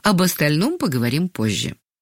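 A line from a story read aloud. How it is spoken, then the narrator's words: Calm. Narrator (Russian): спокойно сказала Ангелина Сергеевна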